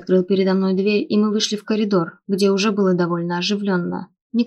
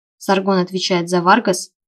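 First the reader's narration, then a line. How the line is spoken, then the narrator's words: Young man scoffing. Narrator (Russian): хмыкнул парень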